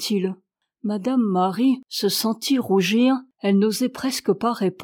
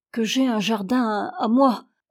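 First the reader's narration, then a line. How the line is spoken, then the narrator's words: Stammering. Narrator (French): bégaya-t-elle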